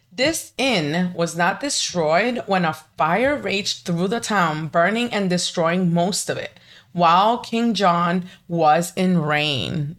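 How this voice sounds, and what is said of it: Hispanic-accented English. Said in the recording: “I'm Hispanic, if you can't tell by my accent”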